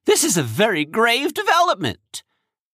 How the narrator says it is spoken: he said urgently

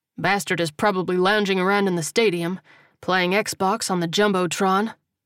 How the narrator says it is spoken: Coleman said dryly

